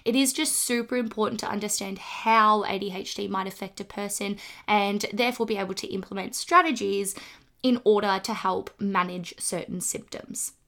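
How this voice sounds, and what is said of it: Congested, slightly rough voice. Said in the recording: “apologize for my voice this morning ... My throat is just feeling a little bit funny. I've got a blocked nose.”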